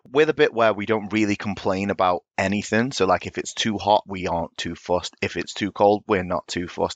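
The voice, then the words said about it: West Midlands English accent. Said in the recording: “He's a bit of an accent... It's the Midlands, by the way, the accent... I'm West Midlands... We've got the worst accent”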